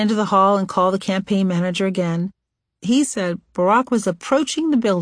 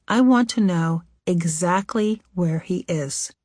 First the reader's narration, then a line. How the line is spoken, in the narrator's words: Michelle said in a firm, low voice